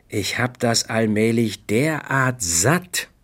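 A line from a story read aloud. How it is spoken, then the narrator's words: Plain. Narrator (German): sagte ich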